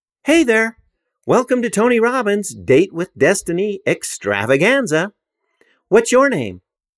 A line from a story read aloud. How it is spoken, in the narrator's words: a voice on the other end chirped